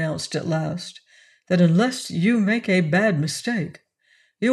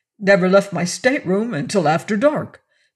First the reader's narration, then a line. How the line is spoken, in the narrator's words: Penifold replied eagerly